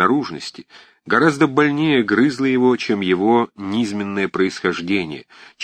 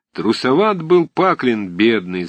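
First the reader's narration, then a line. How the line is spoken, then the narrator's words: Sung. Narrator (Russian): запел кто-то в углу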